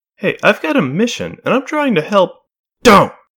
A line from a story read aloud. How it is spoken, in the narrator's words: Melody snapped